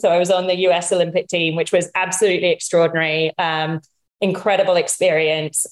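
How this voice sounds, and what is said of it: British accent. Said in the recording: “Despite my accent, my mom's American.”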